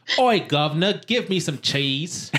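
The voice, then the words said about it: Put-on Cockney accent. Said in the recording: “What about your Cockney accent? ... It's perfect, man. This is like we're across the pond.”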